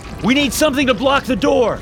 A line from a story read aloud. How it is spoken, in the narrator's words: I shouted